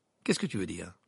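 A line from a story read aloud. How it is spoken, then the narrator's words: Curt, sharp retort. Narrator (French): lança sèchement Harry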